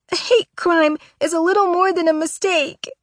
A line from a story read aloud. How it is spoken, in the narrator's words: she says, and she's full on sobbing now